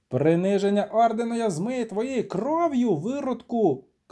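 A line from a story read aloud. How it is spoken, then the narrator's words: Shouted. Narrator (Ukrainian): крикнув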